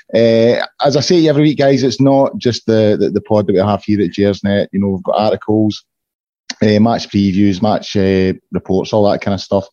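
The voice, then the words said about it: Hoarse voice. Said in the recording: “my voice is a bit hoarse ... I've got a hoarse voice”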